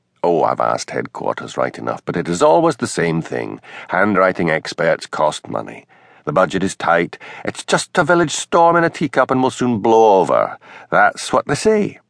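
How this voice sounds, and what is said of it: Sibilant Scottish Highland accent. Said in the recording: “Hamish's Highland accent always became more sibilant when he was excited or upset.”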